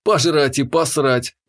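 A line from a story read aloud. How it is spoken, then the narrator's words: Joyless snort. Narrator (Russian): невесело хмыкнул я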